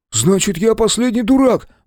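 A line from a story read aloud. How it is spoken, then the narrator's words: Exclaiming. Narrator (Russian): воскликнул Брайан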